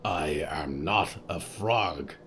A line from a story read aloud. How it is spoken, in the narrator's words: Riku growled